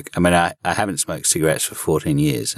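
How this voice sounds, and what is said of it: Deep, subdued voice. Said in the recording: “I've got a deep voice ... sounds much more subdued ... it's just done something to my voice”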